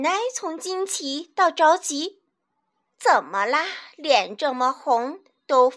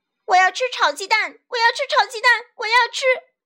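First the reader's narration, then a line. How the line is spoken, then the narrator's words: Hoarse tearful shouting. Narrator (Chinese): 他嗓子也叫哑了 眼泪就扑簌簌的往下流下来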